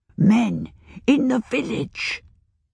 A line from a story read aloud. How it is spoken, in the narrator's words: the old woman whispered dramatically